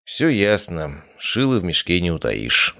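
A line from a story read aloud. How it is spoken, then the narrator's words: Sighing. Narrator (Russian): вздохнул я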